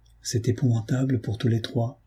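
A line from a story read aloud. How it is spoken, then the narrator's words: Murmuring. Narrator (French): murmurai-je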